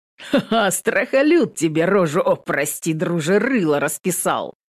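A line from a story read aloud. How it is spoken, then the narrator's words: Laughing loudly. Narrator (Russian): Захохотал в ответ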